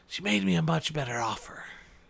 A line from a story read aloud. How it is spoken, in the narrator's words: whispered back